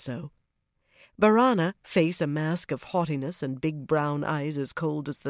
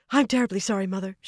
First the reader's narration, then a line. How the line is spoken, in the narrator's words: she said breathlessly